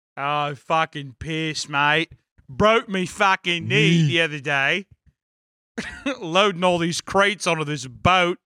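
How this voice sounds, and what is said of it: Weak attempt at Australian accent. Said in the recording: “I'm like still in a Newark accent, but trying to do Australian... I'm still in that BAM accent, but I'm trying to get down into like the Crocodile Dundee aspect. Fuck! Can't do it.”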